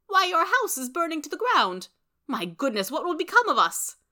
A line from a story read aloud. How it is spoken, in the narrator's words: cried